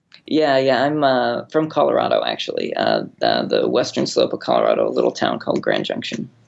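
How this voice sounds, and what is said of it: American accent. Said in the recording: “not from the UK, in case you can't tell from his accent. ... you're from the States”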